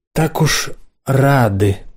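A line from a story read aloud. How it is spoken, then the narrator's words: Slow speech. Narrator (Russian): проговорила она медленно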